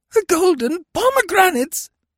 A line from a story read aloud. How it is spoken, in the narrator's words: He shrieked